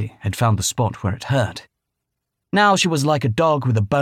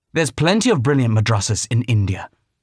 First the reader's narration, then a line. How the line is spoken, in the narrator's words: Rami snapped